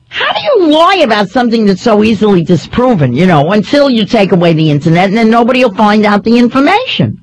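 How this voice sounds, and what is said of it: Noticeable regional dialect. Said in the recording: “I love your dialect... Oh, you sure do.”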